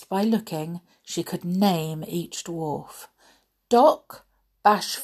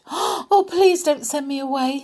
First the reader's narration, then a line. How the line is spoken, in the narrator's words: Snow White cried